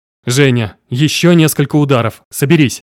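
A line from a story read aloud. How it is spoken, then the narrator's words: Growling. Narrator (Russian): Я рычал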